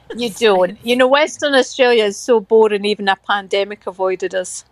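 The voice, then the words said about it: Accent said to sound like Mrs. Doubtfire. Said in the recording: “I love your accent. Well, I wish I had your accent. ... Everyone just says I sound like Mrs. Doubtfire.”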